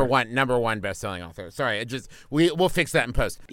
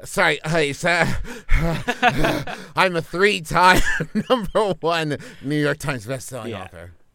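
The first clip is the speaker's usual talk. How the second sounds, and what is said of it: Breathless, out-of-breath delivery. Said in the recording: “can you give me that, but just a little out of breath? ... Really make it sound like you just finished jacking off.”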